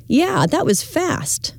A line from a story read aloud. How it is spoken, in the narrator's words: he exclaims